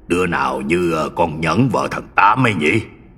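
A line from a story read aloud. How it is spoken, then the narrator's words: Muttering old man. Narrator (Vietnamese): Ông Thủ lẩm bẩm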